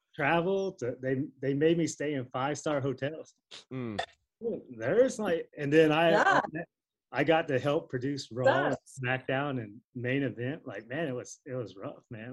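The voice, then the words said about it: Sarcastic delivery. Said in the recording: “You can tell I'm being sarcastic.”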